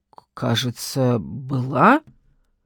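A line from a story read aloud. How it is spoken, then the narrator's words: Uncertain prisoner. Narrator (Russian): неуверенно ответил пленник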